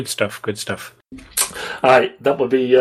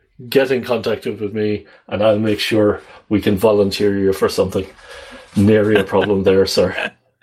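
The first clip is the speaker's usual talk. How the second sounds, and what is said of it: Put-on Irish accent. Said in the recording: “that would be my best Irish accent there.”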